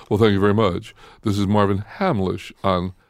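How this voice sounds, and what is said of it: Announcer-style radio voice. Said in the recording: “I always get into my radio voice.”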